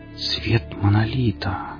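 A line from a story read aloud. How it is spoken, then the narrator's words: Said quietly. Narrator (Russian): тихо сказала Хип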